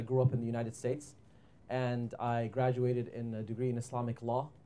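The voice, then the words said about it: American accent. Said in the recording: “You're going to have to excuse my American accent.”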